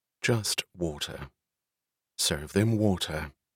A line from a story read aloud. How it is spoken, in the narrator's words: She answered in a cool tone